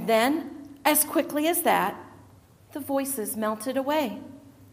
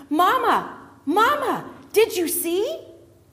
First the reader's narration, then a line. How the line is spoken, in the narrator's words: Benjamin was shouting again